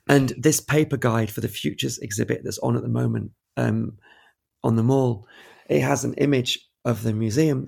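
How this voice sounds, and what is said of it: Hoarse, fading voice. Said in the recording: “I'm losing my voice. Sorry. Too much partying at the weekend.”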